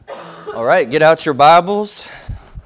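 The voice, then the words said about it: Slight country accent on a word. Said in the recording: “Sounded a little country when I said Bibles.”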